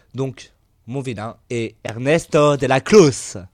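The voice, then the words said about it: Put-on accent on a name. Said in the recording (French): “Oh, quel accent, on peut applaudir.”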